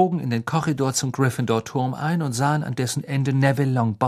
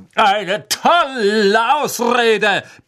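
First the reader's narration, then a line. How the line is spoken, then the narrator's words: Bellowing. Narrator (German): brüllte Sir Cadogan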